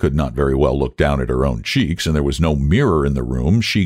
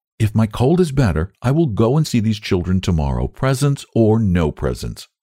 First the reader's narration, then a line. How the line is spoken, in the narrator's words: said Sarah firmly